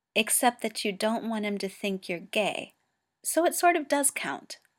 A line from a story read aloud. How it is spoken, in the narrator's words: says Wyah